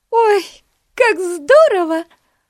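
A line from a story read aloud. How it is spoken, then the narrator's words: Exclamation. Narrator (Russian): воскликнула Бетси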